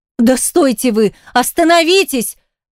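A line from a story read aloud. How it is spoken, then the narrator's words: Shouting orders and cursing. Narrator (Russian): Приказывала, ругалась, кричала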